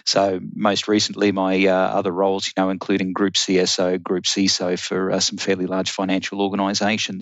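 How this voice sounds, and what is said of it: Australian accent. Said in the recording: “You can hear the accent. I'm actually an Australian”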